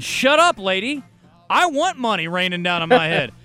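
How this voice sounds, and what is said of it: Yelling. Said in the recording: “I'm yelling”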